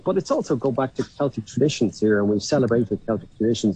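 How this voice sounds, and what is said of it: Lyrical Irish accent. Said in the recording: “such a beautiful lyrical accent”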